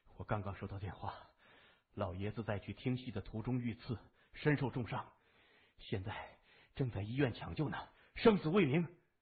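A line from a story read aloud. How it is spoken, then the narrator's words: Forced calm, trembling. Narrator (Chinese): 东新雷尽量让自己的声音平静下来，但还是有些颤抖的说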